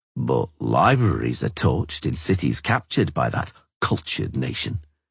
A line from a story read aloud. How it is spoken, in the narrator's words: he said in an unaggressive tone, but with a distinct sneer